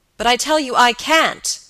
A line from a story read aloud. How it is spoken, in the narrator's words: cried George